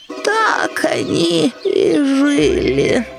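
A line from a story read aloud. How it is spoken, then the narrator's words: Sleepy, yawning. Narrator (Russian): продолжала Соня сонным голосом, зевая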